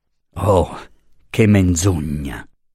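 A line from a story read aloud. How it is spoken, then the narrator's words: Deep scornful, not angry. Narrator (Italian): fece Luisa con una voce grossa di disprezzo, senz'ira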